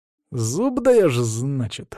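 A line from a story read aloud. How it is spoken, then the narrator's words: Insinuating, ingratiating tone. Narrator (Russian): вкрадчиво проговорил Саня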